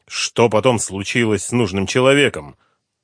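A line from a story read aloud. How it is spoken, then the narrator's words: Plain. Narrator (Russian): спросил генерал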